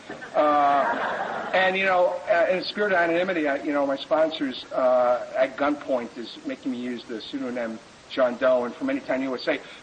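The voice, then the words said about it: Non-West-Coast American accent. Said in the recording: “I'm not from the West Coast. I don't know if you can tell from my accent, but I ain't local.”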